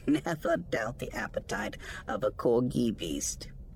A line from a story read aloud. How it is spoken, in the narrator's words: Rug said with a laugh